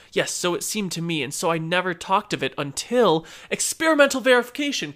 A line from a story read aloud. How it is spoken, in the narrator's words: cried I